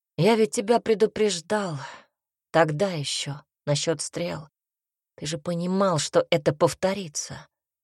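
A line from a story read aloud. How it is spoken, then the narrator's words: Tired. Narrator (Russian): произнес Альберт устало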